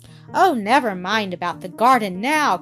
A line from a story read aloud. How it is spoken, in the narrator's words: cried Peter